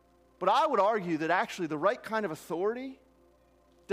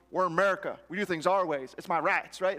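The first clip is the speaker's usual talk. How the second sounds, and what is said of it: Puts on an American accent. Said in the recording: “I don't know why I start getting that accent when I talk that way”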